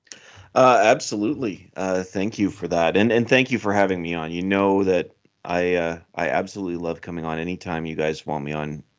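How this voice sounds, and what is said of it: Canadian accent. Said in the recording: “my Canadian accent ... how could we not love your Canadian accent”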